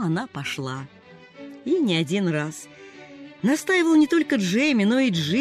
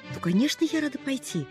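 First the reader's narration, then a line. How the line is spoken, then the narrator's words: Happy sigh. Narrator (Russian): радостно вздыхала она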